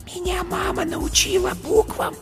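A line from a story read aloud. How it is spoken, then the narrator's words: Small whisper. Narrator (Russian): шепотом сказала зайка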